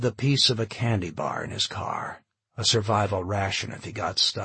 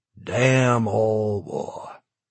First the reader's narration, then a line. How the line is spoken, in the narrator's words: he sighed